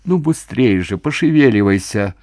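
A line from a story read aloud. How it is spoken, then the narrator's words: Irritated. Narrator (Russian): раздраженно сказал приор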